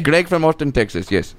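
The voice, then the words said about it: Very bad put-on accent. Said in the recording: “it might be the worst accent I've ever heard about”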